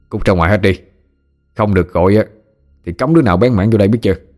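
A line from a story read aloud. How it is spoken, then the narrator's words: Harsh growling shout. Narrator (Vietnamese): Hai nhân, hết hàm gằn giọng quát lên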